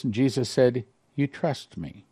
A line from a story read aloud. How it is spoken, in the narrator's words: he whispered softly